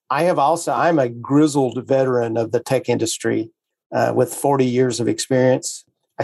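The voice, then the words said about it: Alabama Southern US accent. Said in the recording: “so everybody knows where this funny accent comes from. I am one of the chosen few from the state of Alabama”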